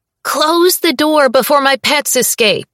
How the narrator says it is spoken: Ruse yells from the back of the shop

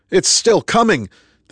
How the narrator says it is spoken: the man shouted over the cacophony of sounds echoing throughout the 3-story vestibule

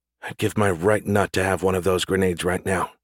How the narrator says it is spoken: she muttered

